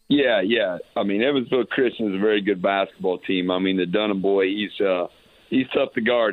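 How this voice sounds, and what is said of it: Hoarse, strained, nearly lost voice. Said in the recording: “As you can tell, my voice is gone on trying to get guys where they need to be”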